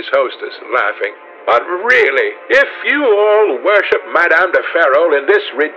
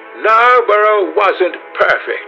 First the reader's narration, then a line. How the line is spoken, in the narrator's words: cried the old lady